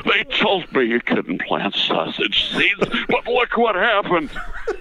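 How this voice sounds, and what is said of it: Imitates an elderly man's voice. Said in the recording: “he became more like this at the end because he was older and his voice had a little more horrible in it. He was an 80-year-old man ... Adam West impersonation of the 80-year-old Adam West”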